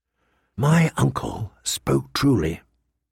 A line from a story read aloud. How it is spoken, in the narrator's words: he whispered to Ghost